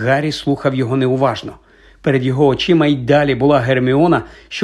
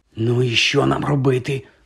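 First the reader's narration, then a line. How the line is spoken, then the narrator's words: Whisper in the ear. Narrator (Ukrainian): прошепотів Рон йому на вухо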